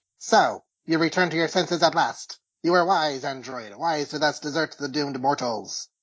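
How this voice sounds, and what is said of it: Robotic villain voice. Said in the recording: “my bad imitation of the movie voice ... that sounds more like a robot voice”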